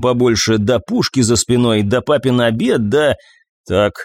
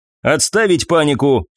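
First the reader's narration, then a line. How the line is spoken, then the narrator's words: Stern sharp shout. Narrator (Russian): строго прикрикнула командир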